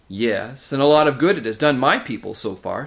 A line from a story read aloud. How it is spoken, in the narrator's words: snapped Nicabrick